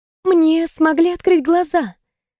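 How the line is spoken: Timid, smiling. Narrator (Russian): робко улыбнулась она

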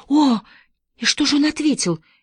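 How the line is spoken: Frightened question. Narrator (Russian): испуганно спросила Мэри

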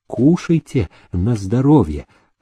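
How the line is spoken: Pleasant sing-song voice. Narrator (Russian): сказала Дуня приятным певучим голосом

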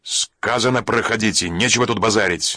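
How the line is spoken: Bark. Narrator (Russian): наконец рявкнул он

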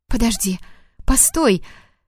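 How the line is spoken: Frightened pleading. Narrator (Russian): Взмолилась испуганно

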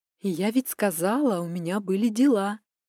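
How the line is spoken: Insolent smiling whisper. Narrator (Russian): прошептала я, растянув губы в наглой улыбке

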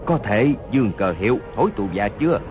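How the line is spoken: Low, wounded voice. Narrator (Vietnamese): Hốt Đô Hổ toàn thân giấy máu, hạ giọng nói

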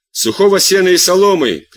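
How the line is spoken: Shouting. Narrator (Russian): кричал Белье

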